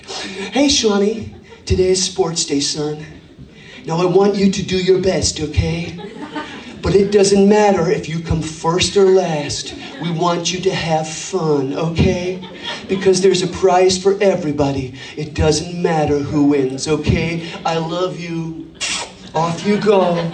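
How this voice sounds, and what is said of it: Put-on American accent. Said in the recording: “We put on the American accent for the crack.”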